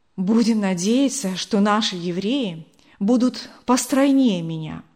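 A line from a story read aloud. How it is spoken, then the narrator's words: Breathless female voice. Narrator (Russian): выдохнула она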